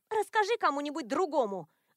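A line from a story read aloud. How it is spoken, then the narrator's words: Snapping retort. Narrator (Russian): огрызнулась Сабрина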